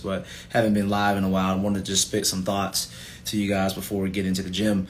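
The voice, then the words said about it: Tired-sounding voice. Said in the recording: “I'm dog tired. You probably can hear it in my voice”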